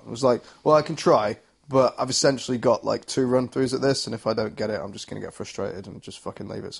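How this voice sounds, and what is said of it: Hoarse, nearly lost voice. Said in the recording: “my voice was shot ... I've got no voice at the minute”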